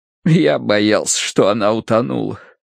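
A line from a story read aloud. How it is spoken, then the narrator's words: Crushed, dejected voice. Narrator (Russian): проговорил он убитым голосом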